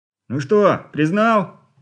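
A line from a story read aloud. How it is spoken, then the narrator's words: Serpent shouting again. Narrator (Russian): опять выкрикнул змей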